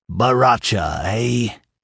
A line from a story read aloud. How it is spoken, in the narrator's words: he sneered